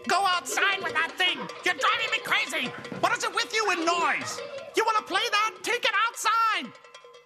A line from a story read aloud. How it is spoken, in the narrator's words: his mother screaming